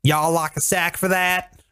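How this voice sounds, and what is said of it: Put-on Southern-style drawl. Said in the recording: “why do they have accents? ... they were all like ... where there's no accent ... do we just drive to Biloxi”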